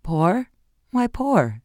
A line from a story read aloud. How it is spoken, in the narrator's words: she echoed with a strained laugh